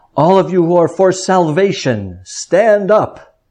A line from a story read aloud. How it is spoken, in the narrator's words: in hopes of arousing the sleeping man, the preacher called out in a towering voice